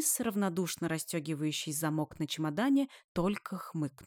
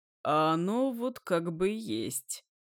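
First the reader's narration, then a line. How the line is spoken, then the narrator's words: Wry snort. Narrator (Russian): хмыкнул Денис, услышав ее восклицание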